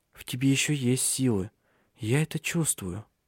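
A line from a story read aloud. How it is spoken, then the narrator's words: Whispered. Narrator (Russian): прошептала она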